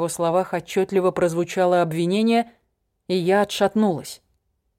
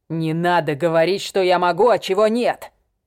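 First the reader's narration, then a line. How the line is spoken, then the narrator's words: Growl. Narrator (Russian): прорычал он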